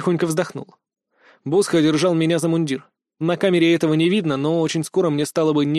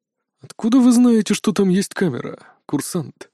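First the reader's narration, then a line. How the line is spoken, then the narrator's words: Deceptively even question. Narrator (Russian): обманчиво ровным голосом поинтересовался лэнд-директор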